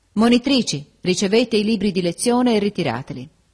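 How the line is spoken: Exclaiming. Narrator (Italian): esclamò

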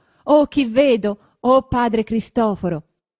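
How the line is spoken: Shout. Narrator (Italian): va incontro al vecchio gridando

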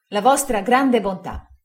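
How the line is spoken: Relieved exclamation. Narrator (Italian): esclamai sollevato da un peso immenso

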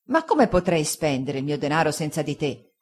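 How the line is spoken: Fisherman's grave remonstrance. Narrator (Italian): disse il pescatore Peggotty in tono di grave rimostranza

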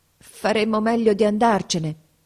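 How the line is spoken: Stammering. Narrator (Italian): balbettò

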